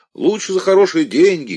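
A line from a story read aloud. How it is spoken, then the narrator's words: Shouting. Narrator (Russian): кричал кто-то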